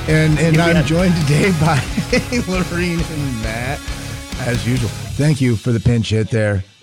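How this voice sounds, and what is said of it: Strained, unwell-sounding voice. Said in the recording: “my voice is not 100% today. So I am on a voice budget.”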